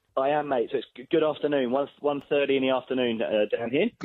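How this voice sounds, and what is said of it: English accent with New Zealand twinge. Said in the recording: “your accent, because it sounds English, but there's like a twinge of New Zealand-ish in it”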